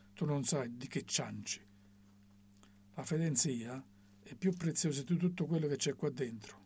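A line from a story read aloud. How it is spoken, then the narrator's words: Grumbled. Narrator (Italian): bofonchiò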